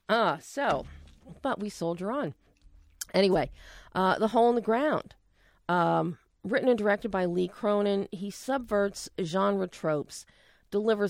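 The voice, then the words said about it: Hoarse, fading voice. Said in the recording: “I'm losing my voice today ... losing my voice”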